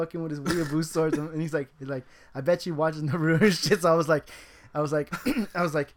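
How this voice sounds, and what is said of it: Usual voice. Nothing is said of it.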